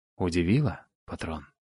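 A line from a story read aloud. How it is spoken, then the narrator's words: Fervent whisper. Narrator (Russian): горячо зашептал доктор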